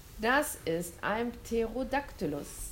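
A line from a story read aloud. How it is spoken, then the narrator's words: Plain. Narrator (German): sagte William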